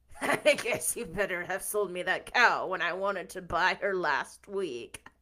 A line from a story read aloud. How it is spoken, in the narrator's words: chuckled Mr